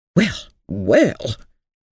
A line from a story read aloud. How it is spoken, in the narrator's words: exclaimed a disagreeable voice from the other side of the room